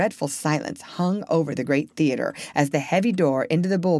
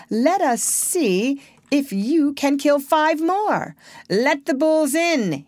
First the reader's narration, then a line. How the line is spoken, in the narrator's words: he shouted